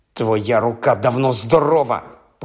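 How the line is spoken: Hissed. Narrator (Ukrainian): просичав він Мелфою

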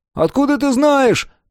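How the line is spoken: Shout. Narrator (Russian): крикнул Том

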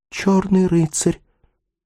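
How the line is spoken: Barely audible, then joyful cry. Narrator (Russian): отвечала Ревекка чуть слышно, но вслед затем закричала с радостным волнением

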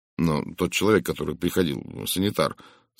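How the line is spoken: Plain. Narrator (Russian): сказал я

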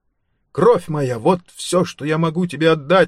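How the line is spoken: Exclaiming. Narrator (Russian): воскликнул он

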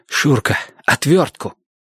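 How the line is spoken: Heated breathy exhale. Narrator (Russian): жарко выдохнул Платон

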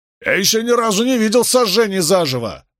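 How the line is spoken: Shouted after someone. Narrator (Russian): крикнул ему вслед Роулингс

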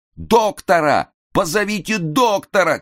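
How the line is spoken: Shouting. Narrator (Russian): кричали на сцене

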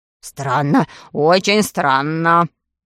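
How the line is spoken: Muttering doctor. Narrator (Russian): бормотал доктор Бариль

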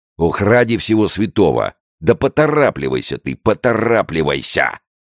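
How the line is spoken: Yell. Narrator (Russian): завопил начальник полиции

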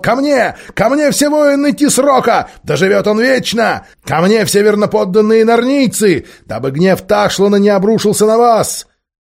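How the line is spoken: Shouting. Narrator (Russian): Тархан закричал

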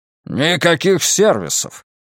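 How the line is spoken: Barked. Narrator (Russian): рявкнул Стивен

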